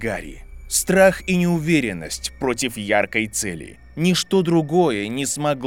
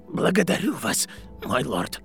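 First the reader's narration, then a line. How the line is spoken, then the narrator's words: Whispered. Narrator (Russian): прошептал бледный мужчина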